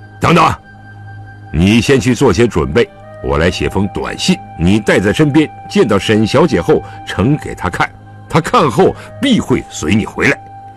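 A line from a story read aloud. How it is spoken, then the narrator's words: Calling someone back. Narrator (Chinese): 狄仁杰又把他叫住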